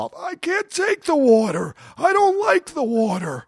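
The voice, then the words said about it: Impression of Funk. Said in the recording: “my Funk impersonation”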